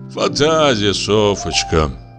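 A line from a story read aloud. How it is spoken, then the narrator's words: Sighing. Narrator (Russian): вздохнул Лубянцев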